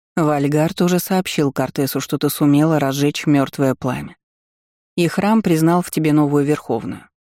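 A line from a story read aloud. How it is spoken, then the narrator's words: Plain. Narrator (Russian): ответила Тайра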